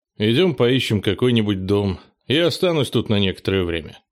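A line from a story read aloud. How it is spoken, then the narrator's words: Plain. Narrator (Russian): сказал Кенни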